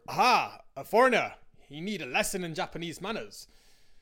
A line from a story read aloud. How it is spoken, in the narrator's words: the drunk roared